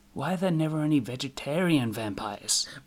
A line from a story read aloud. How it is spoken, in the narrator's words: Ridley said under his breath